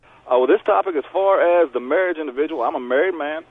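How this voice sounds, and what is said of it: Southern US accent, Tennessee-like. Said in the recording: “I used to live in Tennessee. I miss that accent right there, sir.”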